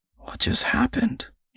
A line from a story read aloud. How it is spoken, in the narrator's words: muttered